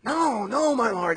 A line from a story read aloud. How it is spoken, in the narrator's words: they exclaimed